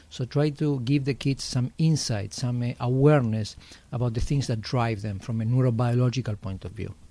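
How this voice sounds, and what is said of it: Argentine-accented English. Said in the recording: “I hear an accent, sir. ... I'm from Argentina.”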